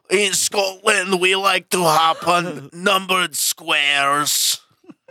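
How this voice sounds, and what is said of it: Bad put-on Scottish accent. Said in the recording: “Everybody's accent is terrible. ... My Scottish accent's a lot better.”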